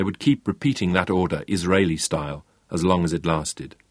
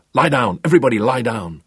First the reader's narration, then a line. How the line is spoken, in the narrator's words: the grenade men were shouting into the interior